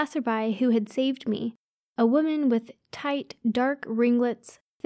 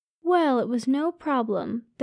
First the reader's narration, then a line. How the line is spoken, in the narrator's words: the woman replied kindly